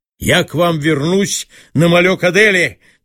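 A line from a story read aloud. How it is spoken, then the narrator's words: Shouted farewell. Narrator (Russian): крикнул им на прощание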